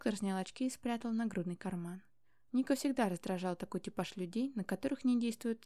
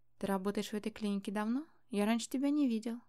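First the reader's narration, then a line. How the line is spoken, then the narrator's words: Ingratiating question. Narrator (Russian): вкрадчиво спросил Ник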